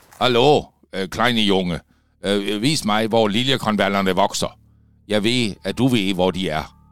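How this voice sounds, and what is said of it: Danish spoken with German accent. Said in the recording (Danish): “Manden talte med en accent. Alma tænkte, at det lød tysk.”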